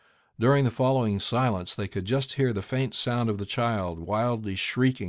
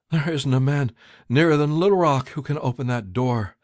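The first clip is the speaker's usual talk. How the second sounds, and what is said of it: Shaky voice. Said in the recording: “in a shaky voice.”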